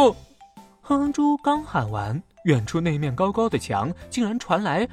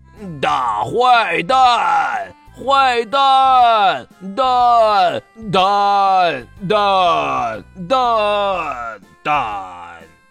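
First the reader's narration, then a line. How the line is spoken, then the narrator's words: Echoing repetition. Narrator (Chinese): 那面大墙把哼哼猪的声音重复了好多遍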